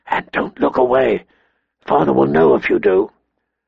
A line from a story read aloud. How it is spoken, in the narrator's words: he whispered